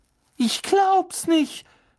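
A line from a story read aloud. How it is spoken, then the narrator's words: Shouting. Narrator (German): schrie Hermine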